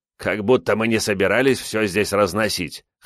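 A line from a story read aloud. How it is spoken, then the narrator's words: Scoffing grunt. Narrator (Russian): хмыкнул Мэдзи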